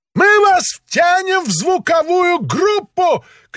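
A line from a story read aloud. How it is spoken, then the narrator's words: Shouting. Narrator (Russian): крикнул он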